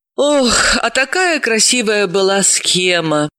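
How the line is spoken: Tired, upset. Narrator (Russian): устало огорчилась Далила

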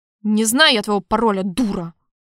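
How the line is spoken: Barking, losing temper. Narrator (Russian): рявкнул я, не выдержал, сорвался

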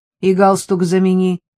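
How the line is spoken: Called after someone. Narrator (Russian): крикнула Элла вслед, закрывающейся двери

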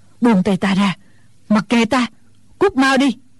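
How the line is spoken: Old woman panting. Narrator (Vietnamese): Bà lão thở hổn hển nói

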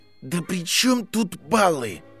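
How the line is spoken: Through clenched teeth. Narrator (Russian): процедил Гарри сквозь сжатые зубы

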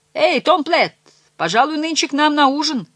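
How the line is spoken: Shouting. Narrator (Russian): кричали

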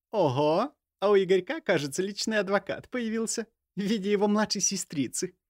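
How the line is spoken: Giggling. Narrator (Russian): хихикнула Варя

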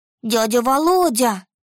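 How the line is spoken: Joyful shout, little girl. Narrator (Russian): Радостно закричала девчушка

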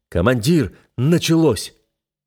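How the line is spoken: Excited shout. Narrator (Russian): Весь из себя возбужденный выкрикнул

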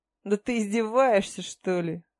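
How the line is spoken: Scoffing snort. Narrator (Russian): хмыкнул Баал

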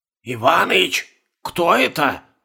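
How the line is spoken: Whisper. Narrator (Russian): шепнул Угрюмченко

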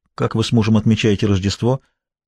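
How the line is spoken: Quiet question. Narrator (Russian): тихо спросил

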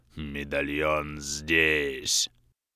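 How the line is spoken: Inhuman hoarse rasp. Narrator (Russian): совсем уж нечеловечьим голосом прохрипел Грим

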